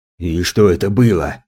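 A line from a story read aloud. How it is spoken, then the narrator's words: Furious hiss. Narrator (Russian): зашипел на меня взбешенный опер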